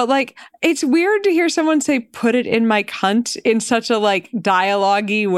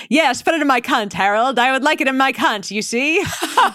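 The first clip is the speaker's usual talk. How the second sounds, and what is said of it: Put-on transatlantic accent, done poorly. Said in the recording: “you practically hear it in like that transatlantic accent ... I'm totally fucking up the accent.”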